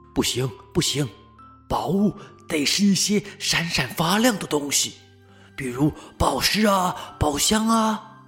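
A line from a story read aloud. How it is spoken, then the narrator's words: Whispering. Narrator (Chinese): 豆豆熊却拉住他，小声的说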